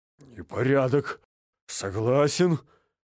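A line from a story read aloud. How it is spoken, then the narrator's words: Relieved exhale. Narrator (Russian): С облегчением выдохнул Джеймс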